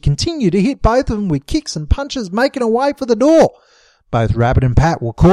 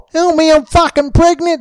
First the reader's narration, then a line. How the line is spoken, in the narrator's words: she yelled